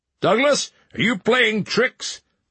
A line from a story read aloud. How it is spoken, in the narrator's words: her father called out